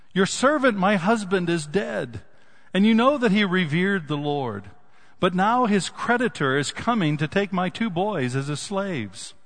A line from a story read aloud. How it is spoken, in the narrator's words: the wife of a man from the company of the prophets cried out to Elisha